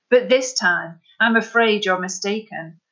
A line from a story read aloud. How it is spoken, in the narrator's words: called out over his shoulder